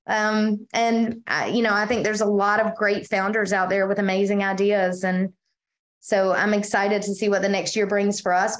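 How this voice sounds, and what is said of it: Eastern North Carolina accent. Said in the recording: “you can tell from my accent, I clearly can't pass off that I'm from anywhere except Eastern North Carolina”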